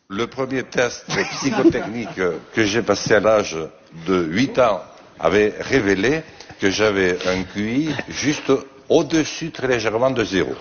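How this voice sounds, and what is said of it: Strong southwestern French regional accent. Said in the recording (French): “son bel accent bigourdant... il parlait comme ça”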